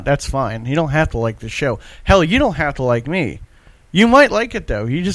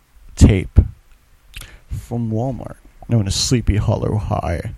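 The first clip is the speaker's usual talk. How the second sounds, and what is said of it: Spooky voice. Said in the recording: “doing a spooky voice”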